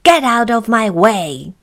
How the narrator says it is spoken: snapped Mr

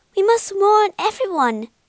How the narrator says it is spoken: cried Bila

